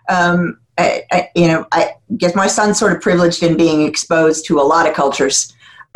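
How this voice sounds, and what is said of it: Non-British foreign accent. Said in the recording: “I'm here 29 years, so officially I'm British, but obviously you can hear the accent”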